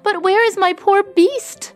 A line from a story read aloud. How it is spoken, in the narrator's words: said Beauty anxiously